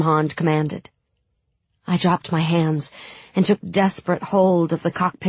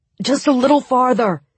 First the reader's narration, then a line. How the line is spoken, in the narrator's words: cried Sturmhand